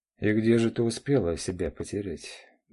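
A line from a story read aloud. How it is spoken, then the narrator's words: Sighing. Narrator (Russian): вздохнул мужчина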